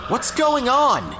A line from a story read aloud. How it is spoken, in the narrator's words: shouted through the wall